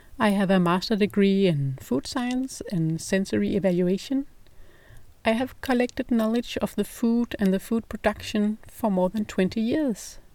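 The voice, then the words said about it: Danish accent in English. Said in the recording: “my English accent, it's because I'm not native English. I'm Danish.”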